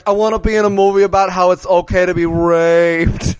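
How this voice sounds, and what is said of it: Imitates another person's voice. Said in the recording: “You gave him your Donald Trump voice.”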